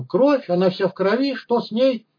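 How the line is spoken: Shriek. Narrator (Russian): Мамаша взвизгнув

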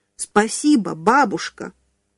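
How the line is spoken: Loud. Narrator (Russian): Мальчик громко сказал

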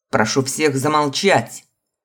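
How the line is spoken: Barked command. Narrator (Russian): рявкнул крик-ускрим

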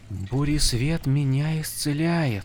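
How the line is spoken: Astonished whisper. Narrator (Russian): пораженно прошептала Шалан

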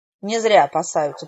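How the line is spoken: Grumbling. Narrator (Russian): проворчала наставница

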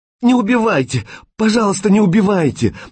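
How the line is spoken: Sobbing hysterically. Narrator (Russian): навзрыд зарыдала секретарша

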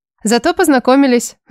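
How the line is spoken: Laughing. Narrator (Russian): засмеялась я

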